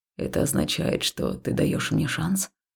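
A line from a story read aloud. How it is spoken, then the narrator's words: Soft whisper in ear. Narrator (Russian): Хаул тихо зашептал мне на ушко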